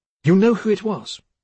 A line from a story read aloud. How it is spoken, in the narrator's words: Clover spoke sharply